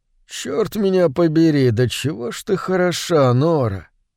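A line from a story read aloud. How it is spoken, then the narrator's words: Husky mutter. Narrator (Russian): хрипловато пробормотал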